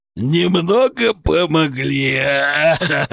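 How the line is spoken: Nasty gurgling laughter. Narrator (Russian): Сычев расхохотался противным булькающим смехом

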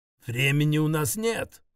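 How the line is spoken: Growled. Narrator (Russian): зарычал Хенрик

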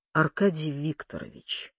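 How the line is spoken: Even voice. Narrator (Russian): проговорил он ровным голосом

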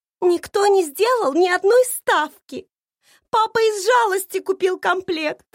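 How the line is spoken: Upset lady sobbing. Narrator (Russian): всхлипывала расстроенная леди

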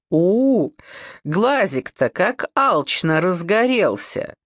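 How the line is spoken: Chuckle. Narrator (Russian): хохотнула Александра

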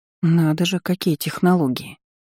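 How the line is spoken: Inner mutter. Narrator (Russian): мысленно пробормотала

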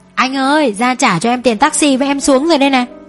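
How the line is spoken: Excited calling. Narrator (Vietnamese): nó đã hớn hở gọi tôi

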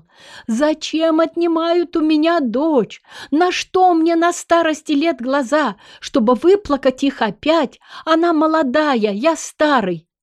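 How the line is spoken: Old man, despairing shouting. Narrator (Russian): старик рвал на себя волосы и кричал

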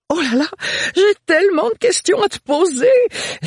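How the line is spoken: Exclaimed. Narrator (French): s'exclama Agathe

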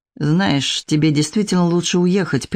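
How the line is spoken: Through clenched teeth. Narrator (Russian): процедил Андрей

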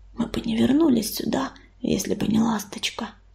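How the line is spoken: Whisper. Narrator (Russian): прошептал он

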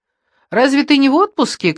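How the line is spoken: Shouted after someone. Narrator (Russian): крикнул вслед ему Гейл

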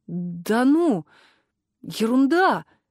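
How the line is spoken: Hesitant young student. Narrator (Russian): неуверенно сказал первокурсник

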